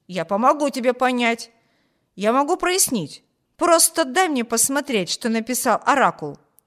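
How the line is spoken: Exclamation. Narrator (Russian): воскликнул Виберт

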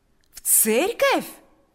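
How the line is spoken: Joyful exclamation. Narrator (Russian): воскликнул Павел с таким радостным выражением лица

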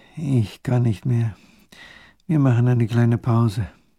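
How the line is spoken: Exhausted groan. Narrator (German): der kleine Großherzog stöhnt

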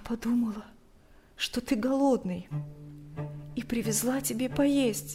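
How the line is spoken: Barely audible, strained. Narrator (Russian): еле слышно выдавила она

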